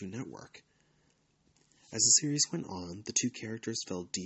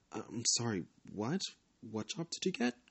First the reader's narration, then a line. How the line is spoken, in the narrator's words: Chris asked